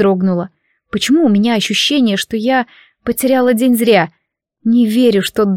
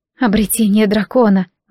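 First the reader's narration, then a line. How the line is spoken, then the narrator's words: Breathed out. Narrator (Russian): выдохнула Лори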